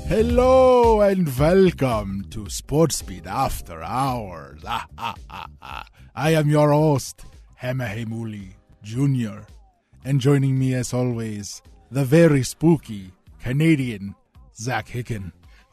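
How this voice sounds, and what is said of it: Put-on Transylvanian Dracula accent. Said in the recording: “I can't tell if that's a Transylvanian accent or like a Hawaiian. Trying to do Dracula. ... Transylnesian. accent.”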